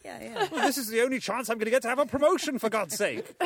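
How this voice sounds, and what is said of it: Simon Cowell impression. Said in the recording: “That was a great Simon Cowell. ... I'm noted as the UK's premier Simon Cowell impersonator.”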